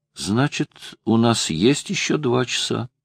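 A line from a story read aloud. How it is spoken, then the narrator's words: Innocent tone. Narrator (Russian): Лара невинным голосом произнесла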